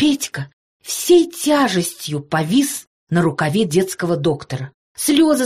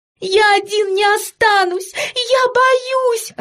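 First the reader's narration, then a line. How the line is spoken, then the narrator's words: Sobbing. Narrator (Russian): рыдал Петька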